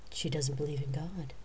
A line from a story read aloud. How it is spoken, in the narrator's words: she said quietly